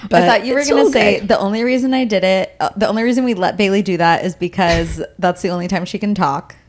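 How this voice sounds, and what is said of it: Squeaky, partly lost voice. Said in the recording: “A little bit squeaky. My voice is just a little bit gone.”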